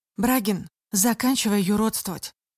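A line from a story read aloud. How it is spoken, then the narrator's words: Loud but calm. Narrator (Russian): громким голосом спокойно прокомментировала Настя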